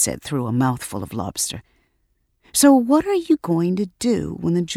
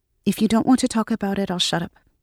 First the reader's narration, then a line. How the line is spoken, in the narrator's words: she added quickly